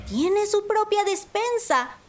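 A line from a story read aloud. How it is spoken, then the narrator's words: Surprised exclamation. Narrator (Spanish): exclamó Panambí sorprendida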